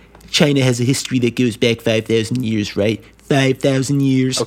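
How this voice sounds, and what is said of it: Donald Trump impression. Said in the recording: “I'm going to be Trump during this.”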